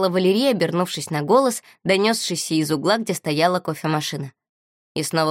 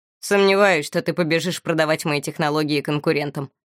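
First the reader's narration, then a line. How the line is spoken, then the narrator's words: Wry snort. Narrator (Russian): хмыкнул Моро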